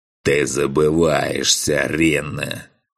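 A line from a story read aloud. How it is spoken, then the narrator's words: Growling. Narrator (Russian): прорычал князь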